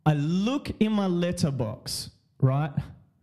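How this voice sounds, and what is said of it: Australian voice with slight British twang. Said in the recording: “when Australians want to stamp something, they do a little UK twang.”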